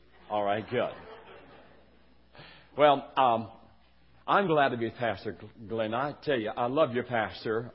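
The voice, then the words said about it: Southern West Virginia accent. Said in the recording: “I will try to be southern in my speech for y'all ... some southern flavor ... With a little West Virginia brogue.”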